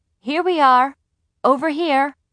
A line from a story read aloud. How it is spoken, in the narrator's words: my mother called out